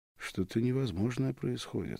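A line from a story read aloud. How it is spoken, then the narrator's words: Plain. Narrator (Russian): сказал я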